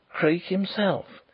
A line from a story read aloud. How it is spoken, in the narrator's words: he whispered across the car